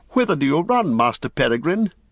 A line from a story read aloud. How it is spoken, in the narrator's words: he cried